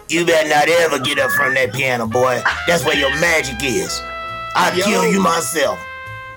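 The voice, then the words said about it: Old-school Cleveland man's voice. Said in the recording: “Do that voice one more time ... he sounds just like Eddie ... He old school Cleveland, like just old school.”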